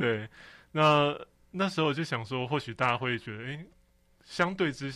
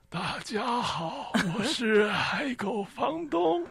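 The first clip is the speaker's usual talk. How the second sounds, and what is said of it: Very old-sounding voice. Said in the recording (Chinese): “都用很老的声音讲话 ... 超老超老的声音 ... 这个老房东出来了”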